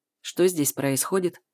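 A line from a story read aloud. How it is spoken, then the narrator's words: Cold question. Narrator (Russian): спрашивает холодно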